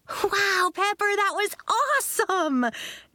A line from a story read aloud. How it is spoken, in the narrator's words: Nori cried